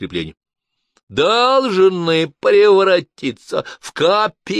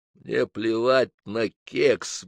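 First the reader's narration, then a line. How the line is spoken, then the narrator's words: Muttering. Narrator (Russian): бормотал я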